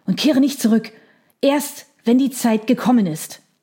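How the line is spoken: Panting. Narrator (German): keuchte er

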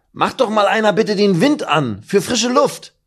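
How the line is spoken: Call. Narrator (German): ruft Meffo

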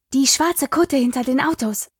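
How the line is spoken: Hissed. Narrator (German): zischte Espen

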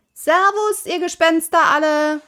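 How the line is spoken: Called out. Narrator (German): rief Pippi

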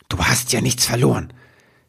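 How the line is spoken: Hissed. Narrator (German): zischte er die Wichtelfrau an

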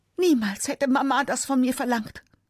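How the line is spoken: Fleeing woman screaming. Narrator (German): Weil er sie weiter bedrängt, flüchtet sie zum Eingang des Museums und schreit

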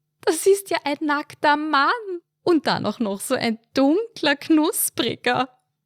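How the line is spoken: Giggling like teenage girl. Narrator (German): kicherte sie wie ein pubertierendes Mädchen

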